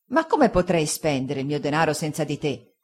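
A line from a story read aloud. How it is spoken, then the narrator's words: Fisherman's grave remonstrance. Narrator (Italian): disse il pescatore Peggotty in tono di grave rimostranza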